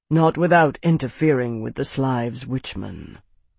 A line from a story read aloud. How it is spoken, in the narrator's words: Araris said quietly